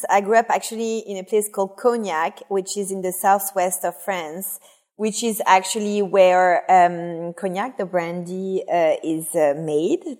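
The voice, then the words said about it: French accent. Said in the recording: “my very discreet French accent”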